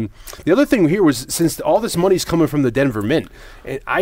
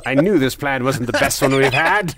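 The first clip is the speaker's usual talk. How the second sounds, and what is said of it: Poor imitation of another person's voice. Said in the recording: “That's your best impression of John Lithgow in this movie so far. ... Terrible John Lithgow impressions.”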